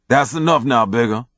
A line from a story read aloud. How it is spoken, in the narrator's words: Doc said, laughing